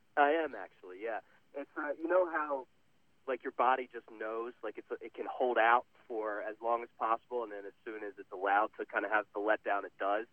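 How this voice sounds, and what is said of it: Slightly hoarse voice. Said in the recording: “are you under the weather? You sound a little hoarse”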